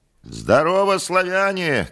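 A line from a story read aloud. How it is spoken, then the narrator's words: Shout. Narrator (Russian): крикнул Иван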